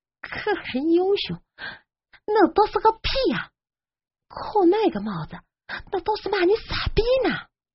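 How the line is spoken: Quiet sarcastic mutter. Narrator (Chinese): 后面的鼠标看不过眼了，小声的挖苦着

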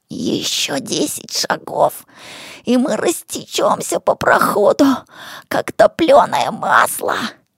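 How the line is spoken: Hoarse rasp. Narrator (Russian): прохрипел Ишмат

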